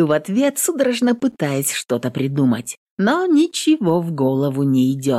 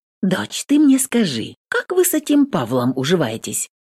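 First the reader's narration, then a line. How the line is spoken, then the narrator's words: Conspiratorial tone. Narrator (Russian): заговорщическим тоном интересуется мать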